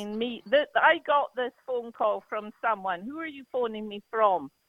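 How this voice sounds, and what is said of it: Scottish accent. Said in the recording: “your accent is absolutely adorable ... I think the Scottish accent is one of the most loveliest ... I just love the Scottish accent”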